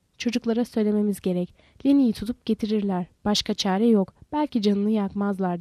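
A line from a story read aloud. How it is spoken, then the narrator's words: Said, then added harshly. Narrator (Turkish): dedi ve sert bir sesle ekledi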